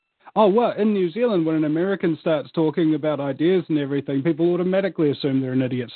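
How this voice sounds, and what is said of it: New Zealand accent. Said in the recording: “people with your accent, or people from Australia, they have this accent”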